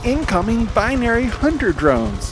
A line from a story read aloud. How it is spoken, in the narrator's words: Beninja yells